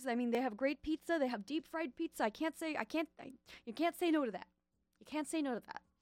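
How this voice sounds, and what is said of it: Slight New York accent. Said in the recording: “sorry if that was like a weird, slightly New Yorkian accent. I have this thing where I keep doing it.”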